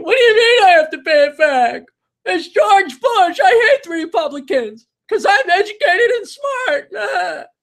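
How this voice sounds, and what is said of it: Mocking imitation of a liberal arts student. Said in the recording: “That is my impersonation of every liberal arts major ever.”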